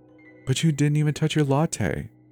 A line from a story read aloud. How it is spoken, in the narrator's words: she said in a syrupy voice